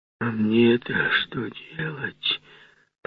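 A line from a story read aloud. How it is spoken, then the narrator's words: Muttered. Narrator (Russian): пробормотал Марвел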